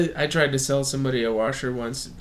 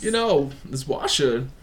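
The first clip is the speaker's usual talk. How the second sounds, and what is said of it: Weak Christopher Walken impression. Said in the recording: “doing Christopher Walken... It's not even good... it's not even a good impression.”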